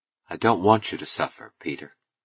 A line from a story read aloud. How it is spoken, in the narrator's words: she said gently